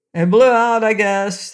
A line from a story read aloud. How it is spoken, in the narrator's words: shouted Cap'n Bill